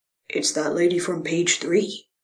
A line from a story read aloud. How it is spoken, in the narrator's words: he stage whispered